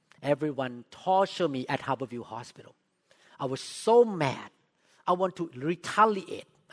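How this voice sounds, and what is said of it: Thai accent in English. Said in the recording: “I spoke with accent. I'm from Thailand.”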